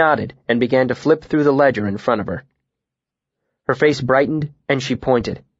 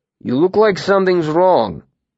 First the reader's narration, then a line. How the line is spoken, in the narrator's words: Will grumbled